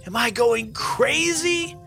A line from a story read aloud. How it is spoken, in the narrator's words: yelled Finn